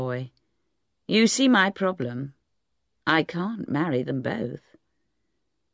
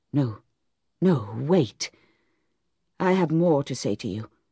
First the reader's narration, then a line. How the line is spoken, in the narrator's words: whispered Boldwood, the muscles in his face strangely out of control